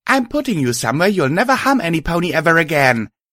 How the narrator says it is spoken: I shouted

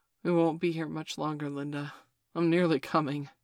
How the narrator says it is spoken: replied breathlessly

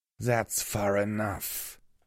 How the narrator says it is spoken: she growled

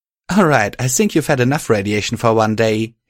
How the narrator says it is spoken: she said, giggling

